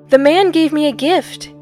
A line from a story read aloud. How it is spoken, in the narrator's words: Gib cried out